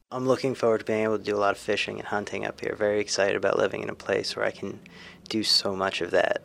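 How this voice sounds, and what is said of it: Slight Southern US drawl. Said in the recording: “a slight southern drawl”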